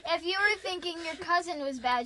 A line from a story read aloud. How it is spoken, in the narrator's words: she said